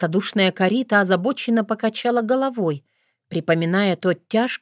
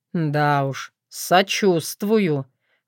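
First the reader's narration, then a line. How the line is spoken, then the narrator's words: Gloomy remark. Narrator (Russian): мрачно прищурился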